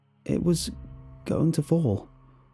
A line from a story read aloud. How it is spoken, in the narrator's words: I finally answered, my voice weak